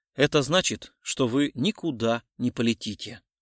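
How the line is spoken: Said calmly. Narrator (Russian): спокойно сказал Гуров

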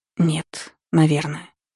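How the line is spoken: Muttered. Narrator (Russian): пробормотала

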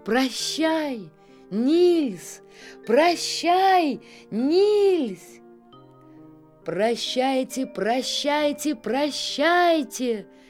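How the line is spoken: Shouting. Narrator (Russian): кричал им Нильс

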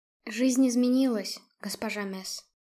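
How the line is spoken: Quiet. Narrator (Russian): тихо произнесла я

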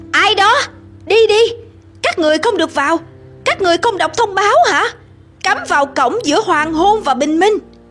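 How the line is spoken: Loud shout. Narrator (Vietnamese): Một giọng hét lớn trong bóng tối

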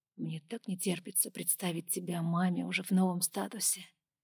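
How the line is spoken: Whisper. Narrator (Russian): прошептал Пол

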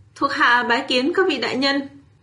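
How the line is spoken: Hurried, loud. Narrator (Vietnamese): Kim Kiền vội vàng cao giọng nói

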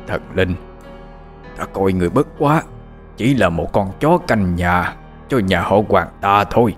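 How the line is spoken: Harsh strained whisper. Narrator (Vietnamese): Ông gằn giọng thều thào nói

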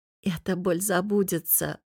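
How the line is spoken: Smiling whisper. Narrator (Russian): улыбнулась и прошептала

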